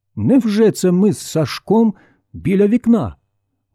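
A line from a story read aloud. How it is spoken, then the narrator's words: Man exclaiming. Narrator (Ukrainian): вигукнув чоловік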